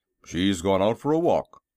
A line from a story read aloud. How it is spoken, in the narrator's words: said Jim gruffly